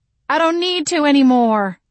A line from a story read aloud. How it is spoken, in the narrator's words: I cried